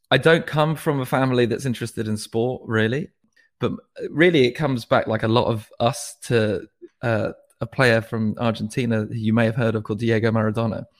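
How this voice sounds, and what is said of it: Posh, plummy English accent. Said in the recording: “I have this posh, plummy English accent.”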